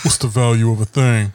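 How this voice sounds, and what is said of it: Deep-voiced J. Cole impression. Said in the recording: “What did J. Cole say in that deep voice?”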